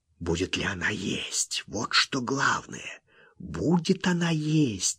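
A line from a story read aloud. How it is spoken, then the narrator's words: Anxious whisper. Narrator (Russian): тревожно шептал он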